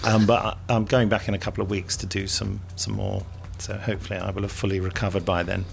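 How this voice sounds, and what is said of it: Husky, congested voice with sniffing. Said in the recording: “Sorry about my sniffing. I've got a bit of a cold... I had a terrible sore throat... I had a slight throat infection. So I'm a little bit husky today.”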